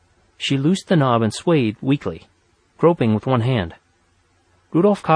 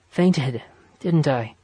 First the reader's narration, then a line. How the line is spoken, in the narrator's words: she asked, weakly